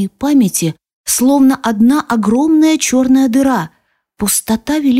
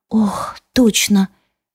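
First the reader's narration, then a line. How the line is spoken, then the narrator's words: Quiet. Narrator (Russian): тихо говорю я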